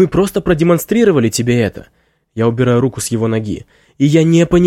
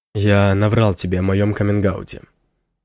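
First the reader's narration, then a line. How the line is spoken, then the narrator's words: Quiet speech. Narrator (Russian): тихо говорит он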